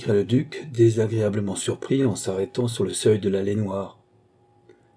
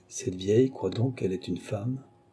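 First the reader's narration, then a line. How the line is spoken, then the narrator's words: Murmured. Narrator (French): murmura le vainqueur de Mahon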